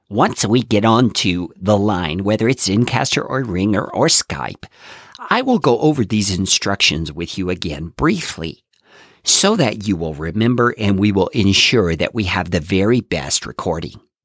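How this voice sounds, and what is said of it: Nerdy scientific guy voice. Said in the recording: “my best impression of a scientific geeky guy”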